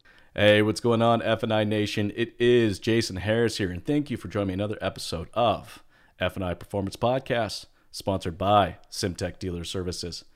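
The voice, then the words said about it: Radio announcer voice. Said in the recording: “That is my best radio announcer voice.”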